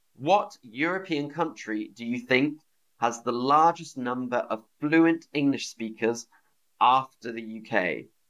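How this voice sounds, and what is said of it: British English accent. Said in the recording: “my accent is the British accent, so I'm speaking to you with a British accent”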